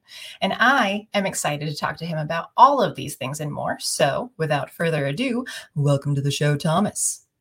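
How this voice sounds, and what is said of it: Polished professional podcast-host voice. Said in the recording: “your intro voice. It was so incredibly professional ... put on a podcast voice ... Performative.”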